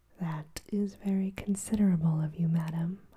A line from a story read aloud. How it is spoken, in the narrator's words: replied